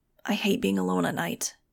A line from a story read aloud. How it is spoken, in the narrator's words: he muttered